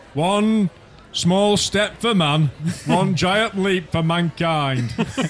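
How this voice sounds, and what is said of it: Sean Bean impression. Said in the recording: “Can you imagine Sean Bean? ... That's a good impression”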